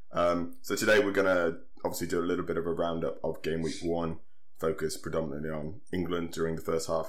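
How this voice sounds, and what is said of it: Slightly hoarse, strained voice. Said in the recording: “My voice is on the ropes as well. I've got a bit of a sore throat.”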